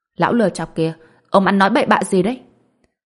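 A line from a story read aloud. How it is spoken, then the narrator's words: Angry scolding shout. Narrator (Vietnamese): Lý Dài Dào tức giận quát mắng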